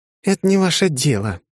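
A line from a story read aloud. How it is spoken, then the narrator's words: Sigh. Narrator (Russian): она вздохнула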